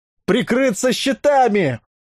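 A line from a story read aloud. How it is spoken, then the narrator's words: Yelled. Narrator (Russian): заорал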